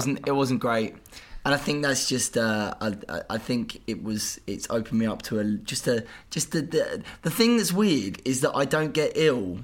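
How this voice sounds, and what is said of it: Sounds ill, unwell voice. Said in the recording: “You sound so ill.”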